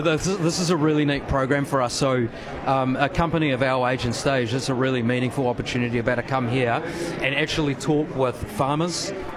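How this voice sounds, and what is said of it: New Zealand accent. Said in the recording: “Pardon the accent, I'm assuming you're New Zealand-based.”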